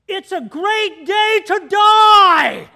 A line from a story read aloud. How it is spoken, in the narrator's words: it's loud, the propellers are going, the guy yells, he yells in my ear